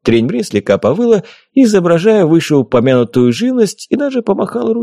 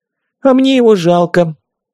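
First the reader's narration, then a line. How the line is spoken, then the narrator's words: Sighing fairy from above. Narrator (Russian): вздохнула сверху фея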